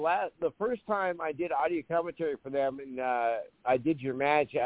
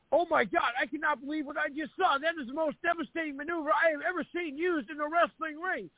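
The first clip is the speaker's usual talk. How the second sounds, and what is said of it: Awestruck, excited commentary voice. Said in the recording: “I was at awe. You could hear it in my voice. I was at awe for your maneuver.”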